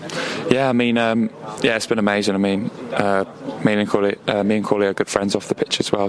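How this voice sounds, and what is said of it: Strained, worn-out voice. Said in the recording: “as you can tell by my voice, I'm not quite there”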